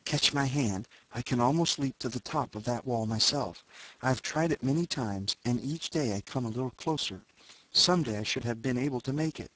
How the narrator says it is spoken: coming close below me whispered

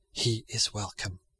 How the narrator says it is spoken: Charles faintly answered

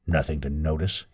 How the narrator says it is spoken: he muttered

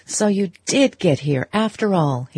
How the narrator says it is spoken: exclaimed

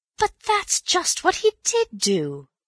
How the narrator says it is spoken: cried Bill triumphantly

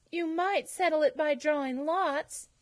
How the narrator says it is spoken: said desperately

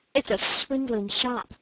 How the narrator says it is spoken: said Dick in a low voice

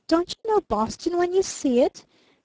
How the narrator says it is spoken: He cried a trifle testily

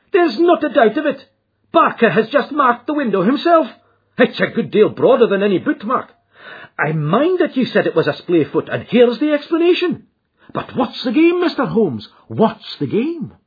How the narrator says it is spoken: he cried

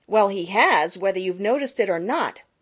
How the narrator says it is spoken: retorted Jenny Wren sharply

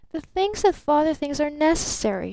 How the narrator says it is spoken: she exclaimed softly

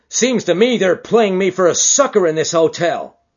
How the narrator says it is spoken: he cried

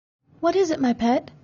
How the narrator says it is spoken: he asked anxiously

